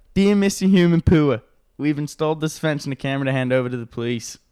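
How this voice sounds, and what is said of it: Put-on Australian accent. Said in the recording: “If you read this in an Australian accent”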